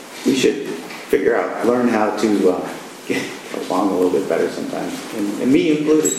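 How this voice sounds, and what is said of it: Hoarse, strained, fading voice. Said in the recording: “losing my voice. I'm not sure how much I'm going to be able to talk to anymore”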